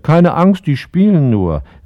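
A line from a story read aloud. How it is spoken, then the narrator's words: Called out. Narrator (German): rief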